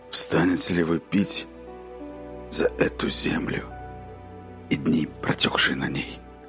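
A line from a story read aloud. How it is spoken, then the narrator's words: Hoarse, emotion-trembling question. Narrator (Russian): Хрипло, вздрагивающим от переполнявших его чувств голосом, спросил он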